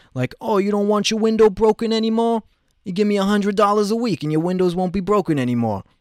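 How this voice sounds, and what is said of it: Put-on New Jersey accent, poorly done. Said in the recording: “that's my Jersey accent. That was pretty bad.”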